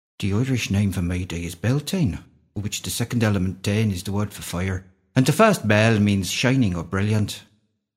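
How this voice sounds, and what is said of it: Convincing put-on Irish accent. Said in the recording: “that's the best Irish accent I've heard you doing. I was seriously impressed by that.”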